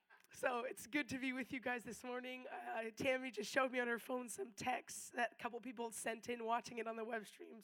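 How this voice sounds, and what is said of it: Hoarse, nearly lost voice. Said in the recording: “with zero voice”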